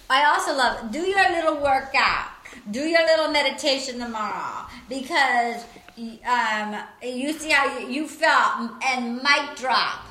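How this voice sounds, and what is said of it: Imitates other people's voices. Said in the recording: “doing a really good impersonation”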